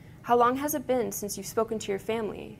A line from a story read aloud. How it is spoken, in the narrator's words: asked